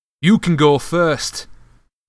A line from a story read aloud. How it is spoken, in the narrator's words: Ron snarled